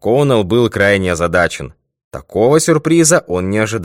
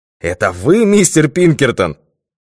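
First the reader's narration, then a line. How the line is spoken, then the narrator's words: Exclamation. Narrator (Russian): воскликнул он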